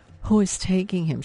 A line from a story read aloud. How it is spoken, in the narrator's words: said, not caring that her voice cracked on the question